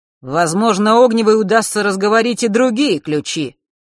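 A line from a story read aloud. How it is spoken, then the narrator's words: Sudden and loud. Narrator (Russian): вдруг громко произнес Марк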